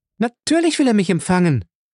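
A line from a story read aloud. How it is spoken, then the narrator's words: Voice calling from outside. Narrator (German): rief eine Stimme draußen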